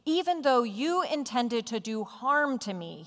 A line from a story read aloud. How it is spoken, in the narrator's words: he says